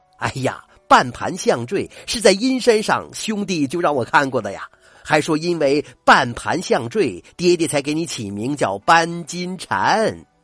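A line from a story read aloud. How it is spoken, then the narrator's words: Laughing. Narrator (Chinese): 秦孝嗣……笑道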